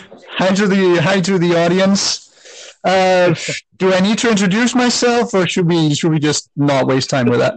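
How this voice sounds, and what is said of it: Danish accent, flat robotic sound. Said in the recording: “If you detect an accent, if you think I sound weird, I talk like a robot. It's because I'm originally from Denmark”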